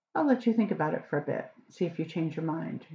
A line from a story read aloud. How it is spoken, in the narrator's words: she said calmly